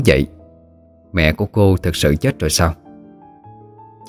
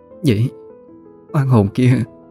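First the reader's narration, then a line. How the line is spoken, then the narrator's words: Trembling voice. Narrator (Vietnamese): run rẩy lên tiếng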